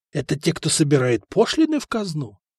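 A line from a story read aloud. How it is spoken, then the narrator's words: Stunned whisper. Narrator (Russian): прошептал ошеломленный Ромей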